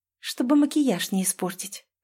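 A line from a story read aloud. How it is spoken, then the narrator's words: Smiling whisper. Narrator (Russian): прошептала с улыбкой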